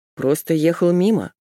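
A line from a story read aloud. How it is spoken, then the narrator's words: Grumble. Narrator (Russian): проворчал он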